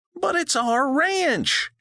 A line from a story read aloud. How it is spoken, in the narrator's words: she wailed